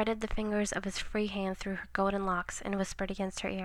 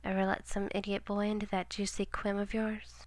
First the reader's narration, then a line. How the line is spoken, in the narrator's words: He chuckled